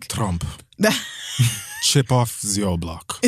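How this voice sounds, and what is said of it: Attempted Russian accent. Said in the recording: “Is that a Russian accent? ... I tried.”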